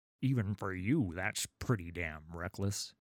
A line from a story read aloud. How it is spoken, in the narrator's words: grunted Raffin, sweating as he leaned back and forth on the oars